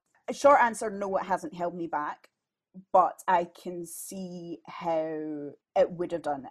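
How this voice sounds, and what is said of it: Cultured West of Scotland accent. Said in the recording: “my accent certainly isn't as refined ... My radio voice, my podcast voice is you know, like a cultured West of Scotland accent.”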